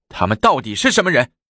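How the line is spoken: Stern question. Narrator (Chinese): 太子厉声问

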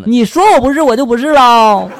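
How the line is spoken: Roaring. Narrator (Chinese): 我大吼的就说了

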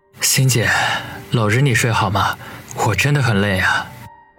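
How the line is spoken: Sighing, gentle. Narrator (Chinese): 他叹了口气，柔声的说道

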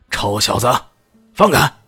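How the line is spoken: Furious roar. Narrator (Chinese): 肖豪强顿时火冒三丈，怒吼道

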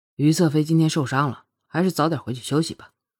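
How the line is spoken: Cold voice. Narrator (Chinese): 凌风冷声道

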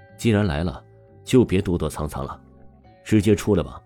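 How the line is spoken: Cold warning. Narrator (Chinese): 王峰朝着林若曦警告了一句，说道

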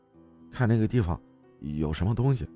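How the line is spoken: Quiet voice. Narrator (Chinese): 他 小声对我说道

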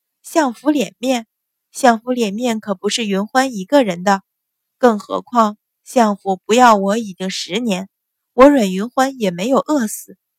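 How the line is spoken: Sneering. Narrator (Chinese): 阮云欢一声冷笑，说道

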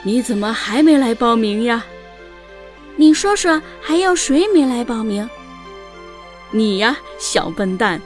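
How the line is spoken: Laughing, teasing. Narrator (Chinese): 阿豹先生笑着对小獾说

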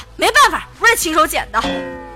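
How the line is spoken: Angry mother. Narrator (Chinese): 他老妈怒了

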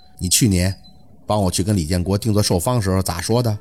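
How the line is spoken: Flat, cool, emotionless. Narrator (Chinese): 凤年的声音听不出什么感情，只是带着那么一丝淡薄的张口

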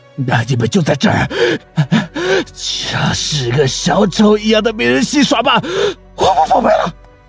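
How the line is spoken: Cold sneer. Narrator (Chinese): 他冷笑了一声

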